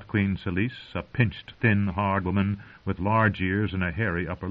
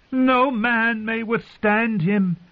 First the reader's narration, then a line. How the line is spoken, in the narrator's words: the queen cried